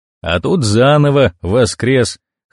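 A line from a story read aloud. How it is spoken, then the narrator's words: Snorting. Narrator (Russian): хмыкнул вагон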